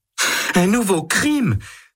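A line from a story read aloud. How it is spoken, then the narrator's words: Exclaims. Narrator (French): s'écrie Jeanne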